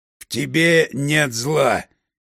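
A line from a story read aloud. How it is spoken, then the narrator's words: Rustling, vibrating three-voice chorus. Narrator (Russian): синхронно произнесли три головы шелестящим голосом, вибрирующим в каждой клеточке Юриного тела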